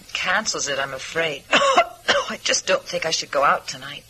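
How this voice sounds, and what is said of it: Fuzzy, congested voice. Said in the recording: “I have a cold ... I thought you sounded a little fuzzy”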